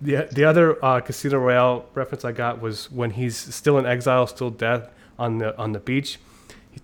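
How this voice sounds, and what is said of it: Usual voice. Nothing is said of it.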